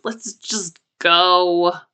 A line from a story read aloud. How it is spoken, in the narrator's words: he breaks the kiss with an exaggerated groan and says